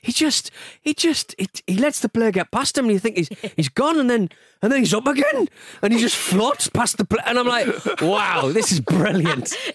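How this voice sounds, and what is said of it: Imitates another person's voice. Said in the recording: “It's a really good impression.”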